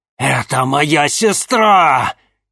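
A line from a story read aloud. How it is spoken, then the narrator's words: Furious growl. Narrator (Russian): яростно прорычал Арбогаст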